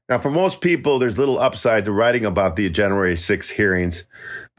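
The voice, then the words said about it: Slightly nasal, congested voice. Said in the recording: “I got COVID again this week ... I sound a little nasally”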